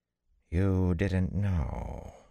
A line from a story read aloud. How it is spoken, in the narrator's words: the dark woman breathed